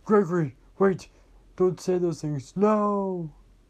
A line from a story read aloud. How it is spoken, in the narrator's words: Freddy yelled